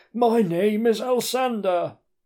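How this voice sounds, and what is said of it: Stereotypical old wizard voice. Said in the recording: “in a stereotypical wizardy voice.”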